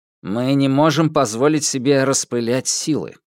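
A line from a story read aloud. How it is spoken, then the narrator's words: Plain. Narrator (Russian): ответил директор бюро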